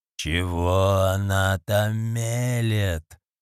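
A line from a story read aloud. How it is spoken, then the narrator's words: Wheezing. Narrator (Russian): прохрипел Люк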